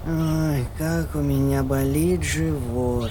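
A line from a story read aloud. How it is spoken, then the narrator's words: Sleepy mumble. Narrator (Russian): Он только пробормотал во сне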